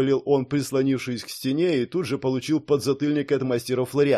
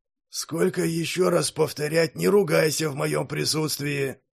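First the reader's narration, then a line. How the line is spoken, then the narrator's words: Hoarse voice. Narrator (Russian): хриплый голос чародея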